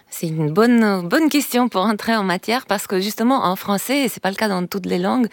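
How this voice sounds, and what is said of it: Slight accent. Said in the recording (French): “Vous avez un petit accent, comme nous tous probablement”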